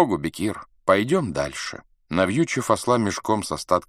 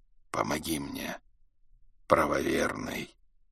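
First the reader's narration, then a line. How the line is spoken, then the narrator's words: Hoarse whisper. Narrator (Russian): прошептал хриплый голос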